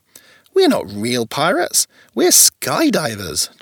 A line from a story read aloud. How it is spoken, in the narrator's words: chuckled a lady called Penny